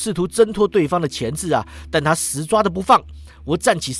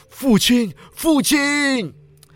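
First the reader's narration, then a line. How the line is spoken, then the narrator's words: Strained, distant voice. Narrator (Chinese): 西罗二世张开嘴巴，语气吃力，仿佛从遥远的境界努力将声音传入我们的耳中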